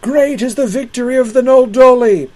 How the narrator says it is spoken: the orcs yelled in derision

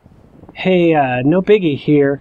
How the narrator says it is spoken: I called out to Brady

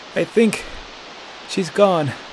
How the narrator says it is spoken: panted Delson

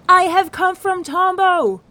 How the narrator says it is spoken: he cried

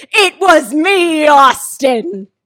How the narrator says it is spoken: screamed

